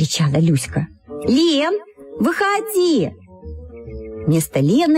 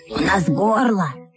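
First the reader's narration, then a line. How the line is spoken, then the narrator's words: Hoarse, two voices together. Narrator (Russian): хрипло сказали оба брата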